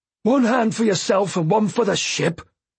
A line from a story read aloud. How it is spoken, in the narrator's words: he roared